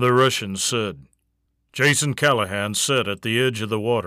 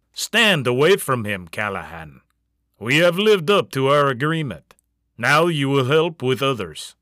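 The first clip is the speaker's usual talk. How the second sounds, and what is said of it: Thick Russian accent. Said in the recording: “a man said with a thick Russian accent”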